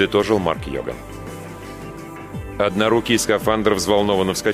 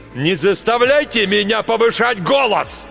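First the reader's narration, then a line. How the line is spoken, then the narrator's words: Sudden yell. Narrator (Russian): Вдруг заорал Марк Йоган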